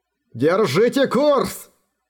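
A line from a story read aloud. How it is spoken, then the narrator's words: Roaring. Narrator (Russian): взревел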